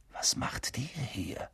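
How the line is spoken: Whispering. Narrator (German): flüsterte Harry

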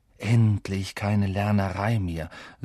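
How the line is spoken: Happy sigh. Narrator (German): seufzte Ron und streckte sich glücklich auf dem Gras aus

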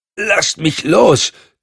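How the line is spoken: Gasping. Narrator (German): keuchte Cotton

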